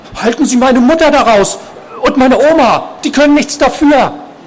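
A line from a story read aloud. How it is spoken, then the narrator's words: Sudden shout. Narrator (German): Gegen die Wand gerichtet rief er plötzlich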